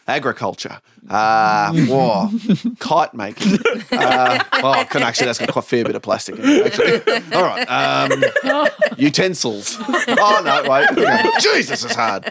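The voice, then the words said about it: Put-on Belgian accent. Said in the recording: “Your Belgian accent is flawless.”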